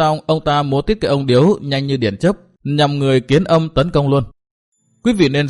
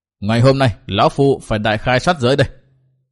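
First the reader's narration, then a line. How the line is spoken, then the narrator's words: Thunderous laugh, loud shout. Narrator (Vietnamese): tiếng cười kêu như tiếng sấm, và Lộc Đường đã quát lớn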